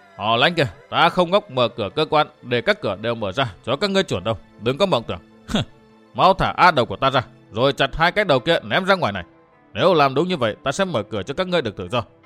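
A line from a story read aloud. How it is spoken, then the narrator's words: Old woman, loud laughter. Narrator (Vietnamese): Khu bà bà lại cười lớn nói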